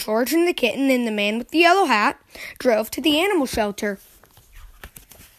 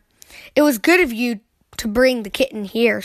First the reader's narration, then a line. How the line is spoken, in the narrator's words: she said